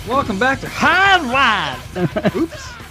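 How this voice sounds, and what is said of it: Put-on Southern accent. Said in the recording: “opened the show in a Southern accent.”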